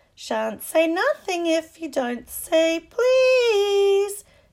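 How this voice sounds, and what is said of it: Annoying sing-song voice of Peeves. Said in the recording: “in his annoying singing voice”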